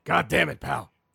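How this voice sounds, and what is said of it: Imitates another person's voice. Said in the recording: “do a Vince McMahon impression”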